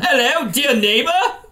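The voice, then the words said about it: Attempted Australian accent, sounds British. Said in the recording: “I'll try to do my Australian voice. ... That's your British voice. ... Oh, sorry, that is.”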